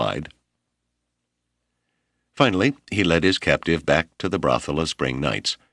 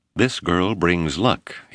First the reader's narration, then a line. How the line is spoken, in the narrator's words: he said